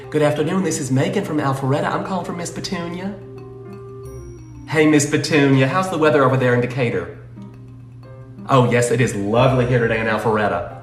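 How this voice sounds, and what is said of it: Exaggerated fake Southern US accent. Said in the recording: “his whole demeanor suddenly changes ... this is the fakest Southern accent”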